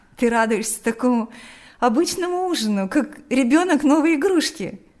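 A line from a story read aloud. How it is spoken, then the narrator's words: Laughing. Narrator (Russian): смеялась Лика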